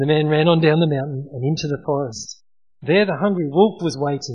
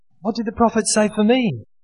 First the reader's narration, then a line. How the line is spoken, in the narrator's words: the withered tree, which called out to him